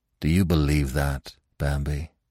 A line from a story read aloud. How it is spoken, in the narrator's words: he asked sadly